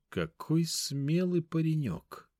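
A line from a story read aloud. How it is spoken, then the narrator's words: Curious hobbit drawl. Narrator (Russian): С любопытством протянул хоббит Мрамор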